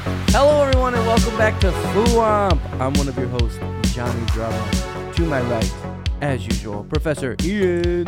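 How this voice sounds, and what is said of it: Put-on radio announcer voice. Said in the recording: “Time to put the radio voice on. Changing characters. ... I've never heard that voice.”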